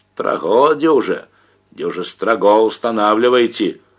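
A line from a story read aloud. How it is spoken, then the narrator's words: Hoarse yelling. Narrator (Russian): орал сиплый голос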